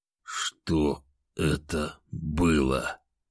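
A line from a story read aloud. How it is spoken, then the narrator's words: Barely audible, tearful. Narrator (Russian): Еле слышно выдавил он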